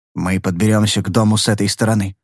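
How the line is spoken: Whisper. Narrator (Russian): шепнул я

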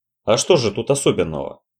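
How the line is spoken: Dry, slightly shocked question. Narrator (Russian): сухо поинтересовался Роджер, все еще пребывая в состоянии легкого шока

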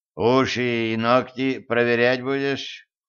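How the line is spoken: Weary question. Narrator (Russian): устало спросил Кощей

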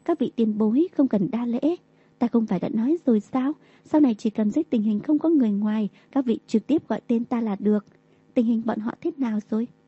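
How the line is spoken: Smiling speech. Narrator (Vietnamese): Đường Tam mỉm cười

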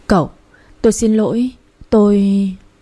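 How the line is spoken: Trembling voice. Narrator (Vietnamese): Tôi run rẩy nói

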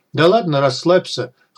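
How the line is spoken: Sudden chuckle, unhinged stranger. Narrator (Russian): хохотнул вдруг неадекватный незнакомец

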